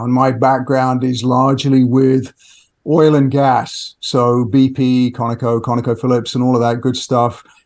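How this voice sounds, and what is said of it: British accent. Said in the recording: “You're uh, uh, originally from the UK. ... Yes, the accent gives it away.”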